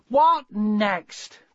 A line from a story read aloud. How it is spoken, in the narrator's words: cried Mrs